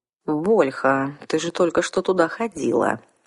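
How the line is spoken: Gentle reminder. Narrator (Russian): мягко напомнил вампир

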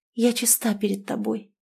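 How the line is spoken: Shy girl's whisper. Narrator (Russian): прошептала девица, не поднимая глаз

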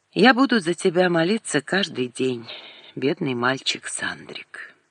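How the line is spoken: Calm, spoken aloud. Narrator (Russian): подумала вдруг спокойно Светлана и сказала вслух

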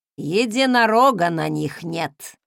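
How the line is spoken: Disapproving grumble with tsking. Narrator (Russian): проворчала Велла и осуждающе подцокала языком

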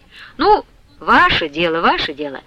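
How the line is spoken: Soft voice. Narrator (Russian): мягким голосом проговорил Сушила

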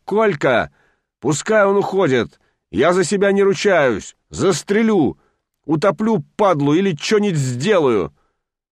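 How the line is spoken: Sudden furious shout. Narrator (Russian): Аким вдруг взвился, закричал

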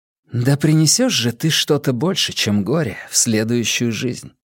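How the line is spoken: Young woman murmuring. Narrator (Russian): пробормотала девушка

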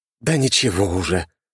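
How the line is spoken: Breathless exhale. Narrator (Russian): только и выдохнул

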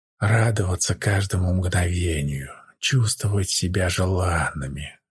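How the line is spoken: Twins whispering in ear. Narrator (Russian): прошептали на ухо близнецы

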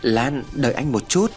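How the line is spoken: Stammering, trembling voice. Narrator (Vietnamese): Hùng cất tiếng lắp bắp, giọng run rẩy

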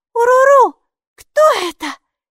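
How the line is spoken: Asked fearfully. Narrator (Russian): испуганно спросила Майки

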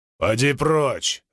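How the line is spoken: Regal man barking. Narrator (Russian): рявкнул царственный

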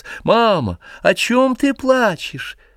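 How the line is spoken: Tearful shout. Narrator (Russian): прокричал он плаксивым голосом

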